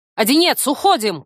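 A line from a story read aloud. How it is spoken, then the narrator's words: Shout. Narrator (Russian): крикнула я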